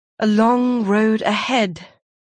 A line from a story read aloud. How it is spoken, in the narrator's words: he said